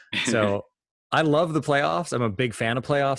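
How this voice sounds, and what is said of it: American accent. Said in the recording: “as listeners will notice from this accent, I am also an American”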